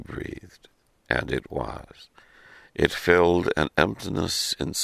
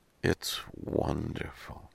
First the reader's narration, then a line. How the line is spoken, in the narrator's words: murmured again